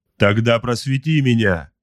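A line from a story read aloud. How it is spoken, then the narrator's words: Barked. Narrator (Russian): рявкнул Эрвин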